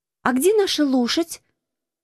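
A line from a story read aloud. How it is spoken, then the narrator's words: Exclaiming. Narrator (Russian): воскликнула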